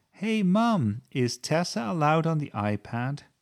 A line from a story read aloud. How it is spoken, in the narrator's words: Sebastian yelled